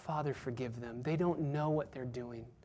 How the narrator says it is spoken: he cries out

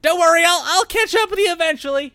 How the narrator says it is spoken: shouting back

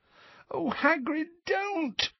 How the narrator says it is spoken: moaned Hermione

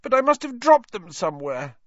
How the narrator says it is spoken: Neville was saying tearfully

